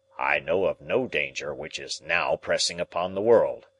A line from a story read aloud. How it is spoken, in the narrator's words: Challenger answered gruffly